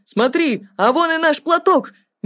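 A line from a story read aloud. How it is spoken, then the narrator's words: Cheerful shout, straining. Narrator (Russian): весело крикнул Артур, с трудом продираясь сквозь ветвистый плен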